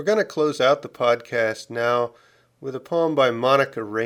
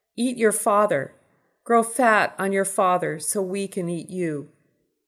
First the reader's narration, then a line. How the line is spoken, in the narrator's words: My daughter cried